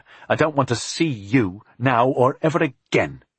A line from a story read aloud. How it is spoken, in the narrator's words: she spat